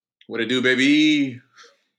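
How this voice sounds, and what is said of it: Imitates another person's voice. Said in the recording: “my Kawhi Leonard impersonation”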